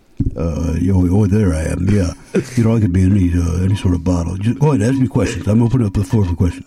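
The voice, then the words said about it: Bad Sylvester Stallone impression. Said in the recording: “You're playing, Mr. Stallone ... Doesn't sound anything like him ... I literally tried to get my mouth more in the bottle to sound like this. That's how bad this impression is”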